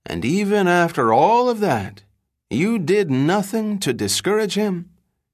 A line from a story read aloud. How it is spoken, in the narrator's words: as though veiled in a private grief, the lawyer wistfully said